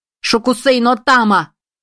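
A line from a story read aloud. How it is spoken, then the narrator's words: Shout. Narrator (Russian): крикнула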